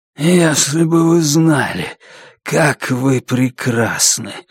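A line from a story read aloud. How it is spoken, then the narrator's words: Hoarse. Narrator (Russian): хрипло проговорил он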